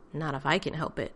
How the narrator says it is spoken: John muttered under his breath

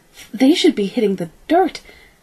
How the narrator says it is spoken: Kaylee cried

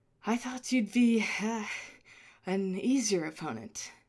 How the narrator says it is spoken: Clavier panted

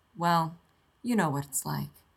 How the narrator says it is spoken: Shepard sighs and says

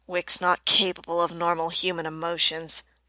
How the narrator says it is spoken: she mutters

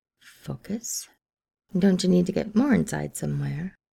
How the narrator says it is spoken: Viago replied in a purr

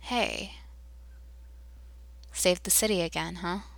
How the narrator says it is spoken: John drawls

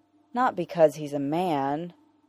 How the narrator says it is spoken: Peter says, keeping his voice low

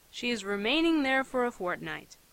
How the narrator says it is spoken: he sighed

